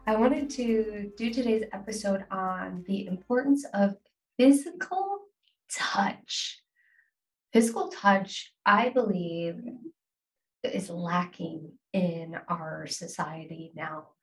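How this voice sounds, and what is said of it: Congested, sick-sounding voice. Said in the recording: “I apologize if I sound a little different. ... I ended up getting a cold.”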